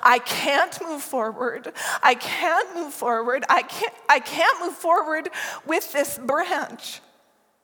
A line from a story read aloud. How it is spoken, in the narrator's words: Through sputtering sobs, he cried